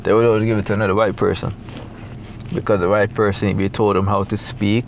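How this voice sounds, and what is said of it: Jamaican accent. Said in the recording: “I'm from Jamaica, I have an accent”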